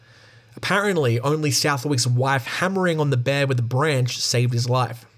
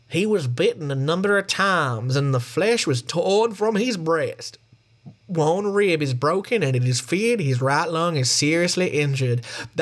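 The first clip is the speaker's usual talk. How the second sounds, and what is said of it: Impression of an 1888 doctor. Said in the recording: “my impression of an 1888 doctor”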